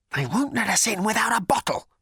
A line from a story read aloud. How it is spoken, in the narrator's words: he hissed